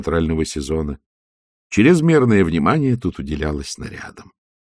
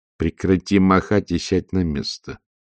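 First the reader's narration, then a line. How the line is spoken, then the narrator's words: Mumbling. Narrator (Russian): пробормотала матушка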